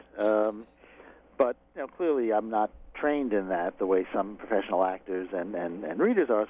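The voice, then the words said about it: New York accent. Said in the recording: “an authentic New York accent”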